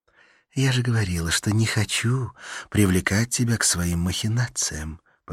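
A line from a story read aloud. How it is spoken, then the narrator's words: Whisper in ear. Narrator (Russian): прошептала на ухо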